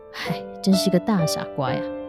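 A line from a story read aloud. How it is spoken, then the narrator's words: Quiet mocking. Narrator (Chinese): 雕像暗自的嘲笑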